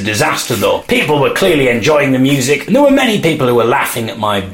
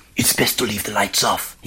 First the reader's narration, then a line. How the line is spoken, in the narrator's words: whispered in a French accent